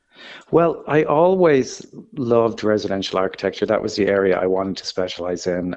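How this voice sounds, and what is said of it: Irish accent. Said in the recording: “designed by an Irishman ... you haven't lost the accent”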